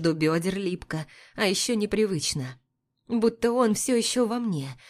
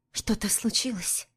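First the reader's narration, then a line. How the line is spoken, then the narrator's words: Quiet question. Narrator (Russian): Тихо спрашиваю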